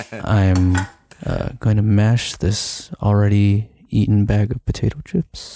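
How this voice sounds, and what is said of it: Breathy sultry voice. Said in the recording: “in your sultry voice ... Sultry? ... the breathiness really adds a lot to that one”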